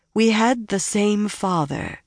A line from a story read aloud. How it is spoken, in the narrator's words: said in a calmer voice